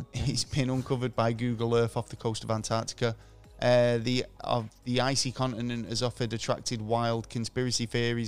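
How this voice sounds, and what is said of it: Strained, hoarse voice. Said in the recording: “I'm losing my voice again today”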